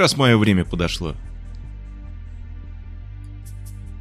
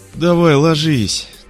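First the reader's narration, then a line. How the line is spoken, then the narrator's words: Relieved exhale. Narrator (Russian): Облегченно выдохнул Мёрфи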